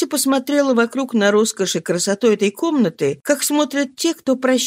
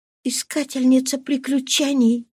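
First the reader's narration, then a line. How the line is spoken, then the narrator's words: Mocking inner whisper. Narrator (Russian): шептал внутри нее насмешливый голос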